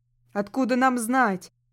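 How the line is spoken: Shouted by townsperson. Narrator (Russian): крикнул кто-то из горожан

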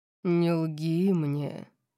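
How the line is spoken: Menacing growl. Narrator (Russian): прорычал он, и от его тона волосы у меня на затылке встали дыбом

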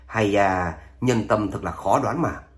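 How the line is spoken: Resigned sigh. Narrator (Vietnamese): Độc Cô Chiến Thiên chau mày, bắt đắc dĩ thở dài

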